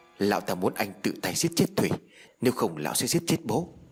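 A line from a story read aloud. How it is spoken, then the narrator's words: Stammering explanation. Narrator (Vietnamese): Báo quay sang nhìn Thông rồi lắp bắp phân giải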